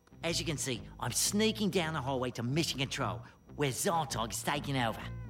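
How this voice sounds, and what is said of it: Put-on Australian accent. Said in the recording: “Why are you talking with an Australian accent? ... I thought it sounded more dramatic.”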